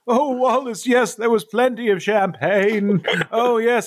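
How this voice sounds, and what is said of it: Old man character voice. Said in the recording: “my old man voice”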